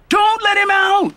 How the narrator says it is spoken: Ebony shouted

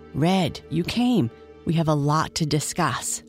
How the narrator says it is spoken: whispered

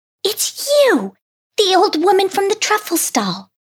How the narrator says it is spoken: exclaimed Picky Ida with delight

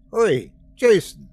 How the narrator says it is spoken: I shouted

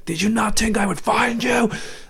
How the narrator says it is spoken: Blitzwing he just screams

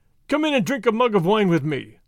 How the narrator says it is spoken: said the highwayman, laughing

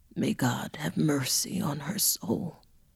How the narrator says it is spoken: The gravedigger horrified, saddened, and oh so weary, mumbled under his breath

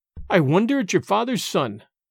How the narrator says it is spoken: cried Alan sternly

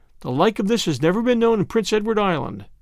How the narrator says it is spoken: said Marilla

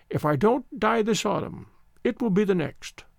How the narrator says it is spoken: the old voice quavered

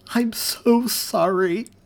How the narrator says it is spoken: Elizabeth cried into his chest

